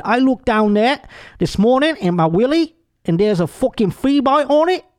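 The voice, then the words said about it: Put-on accent quoting a rocker. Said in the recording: “Is that a good accent? ... That was great.”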